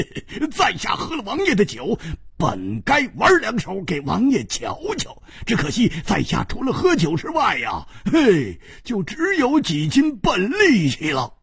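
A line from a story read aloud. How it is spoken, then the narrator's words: Laughing. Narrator (Chinese): 胡铁花笑着说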